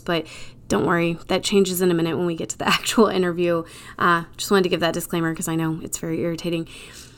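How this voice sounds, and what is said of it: Congested voice from a cold. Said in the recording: “I've got a little bit of a cold right now, so you guys are going to get my sexy NPR voice”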